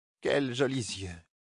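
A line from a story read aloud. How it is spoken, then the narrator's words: Murmured. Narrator (French): murmura-t-elle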